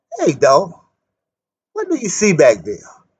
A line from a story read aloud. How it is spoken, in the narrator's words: Willie James chuckled